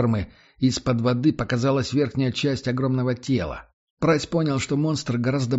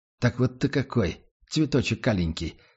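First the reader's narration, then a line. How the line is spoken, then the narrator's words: Muttered. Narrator (Russian): пробормотал он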